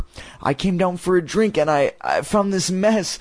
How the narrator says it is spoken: Chris said in a trembling voice

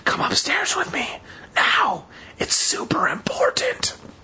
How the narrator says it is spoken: I whispered in her ear

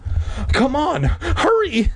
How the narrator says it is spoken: Mindy pleaded

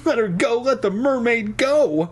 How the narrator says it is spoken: I cried frantically

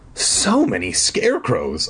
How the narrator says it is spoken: I exclaimed

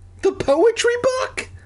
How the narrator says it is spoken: I cried

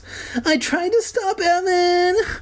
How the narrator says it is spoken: Kermit sobbed like Cartman

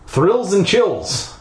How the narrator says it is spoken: I said sarcastically

